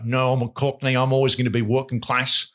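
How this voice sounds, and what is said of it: Weak attempt at Cockney accent. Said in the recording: “I can't do a good Cockney accent”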